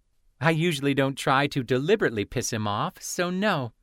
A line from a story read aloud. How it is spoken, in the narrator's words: Penzi giggled